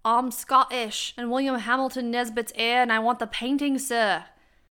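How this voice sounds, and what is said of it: Bad put-on Scottish accent. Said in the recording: “the Academy Award for the worst Scottish accent goes to me”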